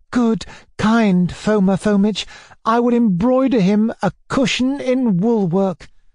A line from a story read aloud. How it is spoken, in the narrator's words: Sashenka cried